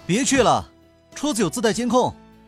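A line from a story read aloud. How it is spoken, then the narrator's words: Calling out. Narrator (Chinese): 刘雨安对他喊道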